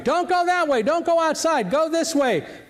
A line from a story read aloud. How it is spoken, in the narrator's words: people were shouting